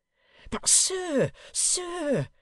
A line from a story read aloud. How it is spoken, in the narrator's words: cried the man